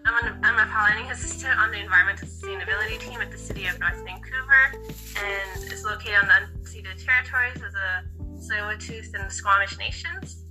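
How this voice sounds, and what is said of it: Weird-sounding voice, like a cold. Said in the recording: “I'm just recovering from a cold, so my voice sounds kind of weird.”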